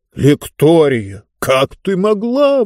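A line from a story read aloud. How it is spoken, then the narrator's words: Exclaimed. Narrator (Russian): воскликнул Мортор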